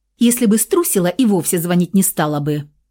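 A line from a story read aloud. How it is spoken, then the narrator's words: Snapping girl. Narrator (Russian): огрызнулась девушка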